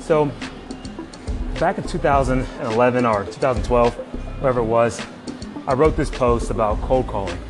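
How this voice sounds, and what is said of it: Out of breath. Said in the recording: “I'm doing my morning cardio, so this one might sound like I'm a little out of breath. It's because I am.”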